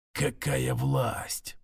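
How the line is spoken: Whispered to himself. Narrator (Russian): прошептал себе

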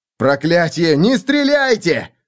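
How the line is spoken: Howl. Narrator (Russian): взвыл Феликс

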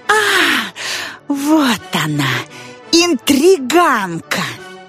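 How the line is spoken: Yelling. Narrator (Russian): завопила Мими

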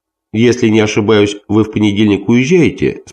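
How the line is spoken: Plain. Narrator (Russian): спросил я

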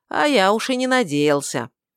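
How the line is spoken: Amused grunt. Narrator (Russian): Принц хмыкнул

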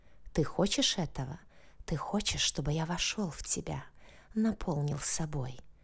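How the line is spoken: Whispering. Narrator (Russian): Зашептал он

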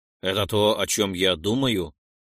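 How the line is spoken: Plain. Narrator (Russian): спросил Ролдон

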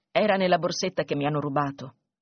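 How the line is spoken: Plain. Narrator (Italian): rispose Mogia

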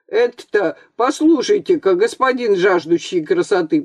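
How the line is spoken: Nearly shouting. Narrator (Russian): почти закричал Архип Иванович

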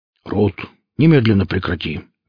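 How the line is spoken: Stern exclamation. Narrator (Russian): воскликнул Велес, строго

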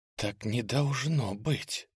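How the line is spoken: Ogre girl whispering. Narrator (Russian): прошептала девушка-огр

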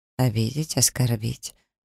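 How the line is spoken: Low vibrating smirk. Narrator (Russian): усмехается он низким вибрирующим тоном

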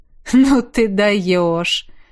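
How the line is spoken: Laughing. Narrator (Russian): Рассмеялся я

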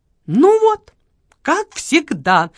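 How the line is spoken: Indignant speech. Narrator (Russian): возмущенно проговорила Лола

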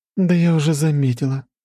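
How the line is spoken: Sighing. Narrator (Russian): вздохнула Аня

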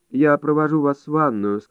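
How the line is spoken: Dull flat voice. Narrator (Russian): сказала она блеклым голосом

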